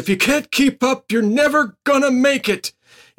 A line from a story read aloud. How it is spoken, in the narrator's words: yells out to the class